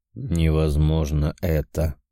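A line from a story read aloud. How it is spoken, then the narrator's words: Tired. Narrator (Russian): устало проговорил он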